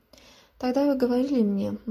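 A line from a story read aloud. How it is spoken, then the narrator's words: Gloomy continuation. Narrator (Russian): мрачно продолжил Джером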